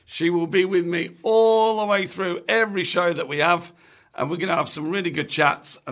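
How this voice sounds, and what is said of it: Hoarse, strained voice. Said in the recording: “I think I've lost my voice a little bit.”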